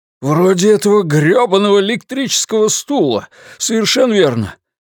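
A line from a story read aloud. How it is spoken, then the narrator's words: Exclaiming in righteous anger. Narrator (Russian): воскликнул Ллойд, охваченный праведным гневом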